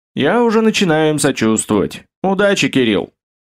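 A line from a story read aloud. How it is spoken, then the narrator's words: Chuckling. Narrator (Russian): хохотнул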